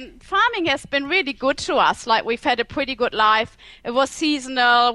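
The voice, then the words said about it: German accent. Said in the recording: “from Germany, right? ... the accent. ... Germany, everyone can hear.”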